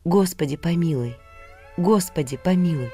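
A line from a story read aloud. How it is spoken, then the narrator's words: Barely audible whisper. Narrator (Russian): едва слышно шептал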